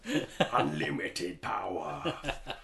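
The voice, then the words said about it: Star Wars villain voice. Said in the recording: “I want to talk like a bad guy in a Star Wars film”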